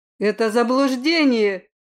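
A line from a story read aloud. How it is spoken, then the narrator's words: Father's growl. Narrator (Russian): рыкнул на него отец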